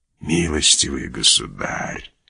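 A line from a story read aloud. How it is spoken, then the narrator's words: Calm whisper. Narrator (Russian): прошептал Манбар все еще спокойно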